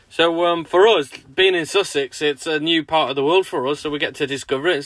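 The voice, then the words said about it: Northwest English accent. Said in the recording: “we're not actually from Sussex or down south, as you might be able to tell from our accents. We're from like the northwest, Chester, Ellesmereport, that sort of way, near the Wirral”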